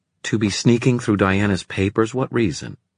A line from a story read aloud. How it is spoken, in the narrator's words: said Livy, so firmly